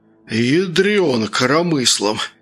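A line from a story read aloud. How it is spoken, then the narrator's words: Hoarse wheeze. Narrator (Russian): прохрипел Сергей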